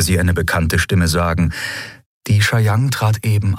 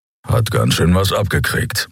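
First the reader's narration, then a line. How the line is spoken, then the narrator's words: Grumbling. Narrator (German): brummte Keru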